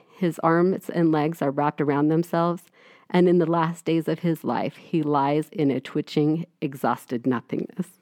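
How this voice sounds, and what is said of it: Voice getting teary and emotional. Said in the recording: “it's making me get a little teary”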